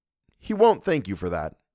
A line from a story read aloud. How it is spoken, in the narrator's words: answered sharply